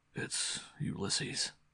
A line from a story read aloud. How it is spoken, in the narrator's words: he said quietly